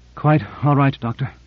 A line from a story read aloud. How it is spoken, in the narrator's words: Cora took a deep breath and said, with an effort, but in a steady voice